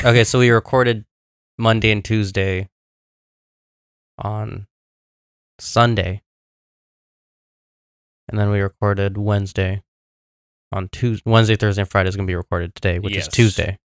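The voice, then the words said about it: Hoarse voice. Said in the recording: “my voice is still hoarse ... I think it has gotten worse ... my voice has gotten worse”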